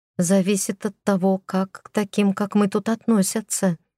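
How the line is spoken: Whispered mutter. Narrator (Russian): шепотом пробормотала

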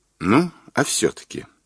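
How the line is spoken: Soft question. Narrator (Russian): мягко спросил Бортко

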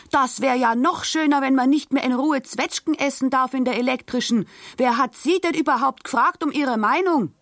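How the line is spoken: Angry shouting back. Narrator (German): Die Karlstadt schrie erbost zurück

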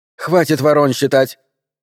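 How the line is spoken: Sharp scolding. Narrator (Russian): прикрикнула она немного резче обычного

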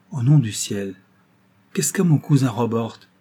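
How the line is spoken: Impatient exclamation. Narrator (French): s'écria Miss Audley avec impatience

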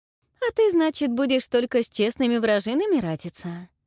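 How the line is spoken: Mocking tone. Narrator (Russian): насмешливо сказала Ольга

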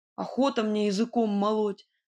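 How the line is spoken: Offended grumble. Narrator (Russian): с задетым видом проворчал Кузя

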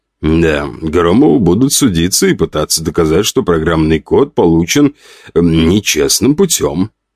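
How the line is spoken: Plain. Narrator (Russian): сказал юрист

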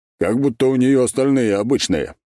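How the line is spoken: Snort. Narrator (Russian): фыркнул Арак

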